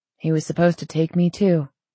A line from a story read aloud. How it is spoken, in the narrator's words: Zane sighed